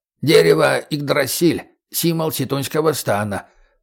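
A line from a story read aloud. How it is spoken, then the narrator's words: Creaky voice. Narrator (Russian): проскрипел проводник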